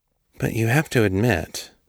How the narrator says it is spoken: he murmured

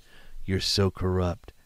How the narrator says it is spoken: he whispers

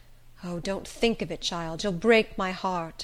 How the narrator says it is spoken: she would groan out

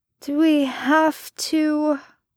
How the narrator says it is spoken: Merlin slurred

